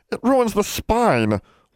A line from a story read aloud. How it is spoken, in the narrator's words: wailed Bran